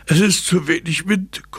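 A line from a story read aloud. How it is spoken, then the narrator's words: Dad panting, exhausted. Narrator (German): keuchte Papa, von der wilden Hopserei erschöpft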